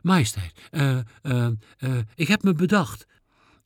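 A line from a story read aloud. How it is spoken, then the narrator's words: Stammering. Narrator (Dutch): Ik stamelde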